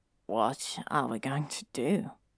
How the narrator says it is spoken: He asked Frank quietly

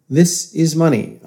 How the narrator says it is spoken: said

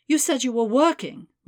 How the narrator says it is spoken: continued, making her voice quaver

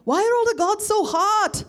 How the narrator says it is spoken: Pai yelled

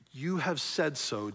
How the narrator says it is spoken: Jesus replied

